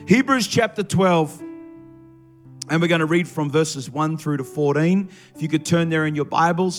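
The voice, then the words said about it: Slightly strained, fading voice. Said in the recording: “I'm starting to lose my voice a little bit this morning from singing too loud”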